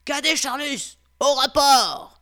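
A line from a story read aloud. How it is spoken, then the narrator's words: Commanding, very loud voice. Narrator (French): d'une voix impérieuse et si forte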